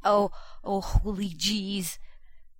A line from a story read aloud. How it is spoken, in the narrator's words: John panted